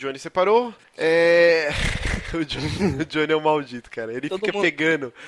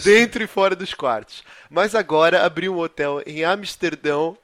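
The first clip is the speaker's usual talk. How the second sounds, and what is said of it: Put-on Portuguese accent. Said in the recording (Portuguese): “Cadê o sotaque português? ... vou tentar fazer aqui o sotaque”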